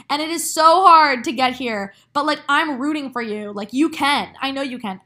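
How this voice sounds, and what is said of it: Passionate, loud, yelling delivery. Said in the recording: “hear the passion in my voice right now. Like, I'm literally yelling.”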